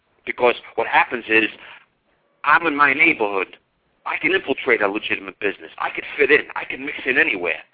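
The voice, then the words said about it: New York accent. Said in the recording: “I have an accent so everybody knows I'm from New York”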